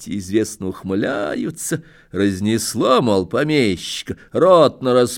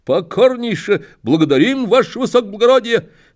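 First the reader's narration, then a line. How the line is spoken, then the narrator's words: Barked soldier-style. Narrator (Russian): гаркнул по-солдатски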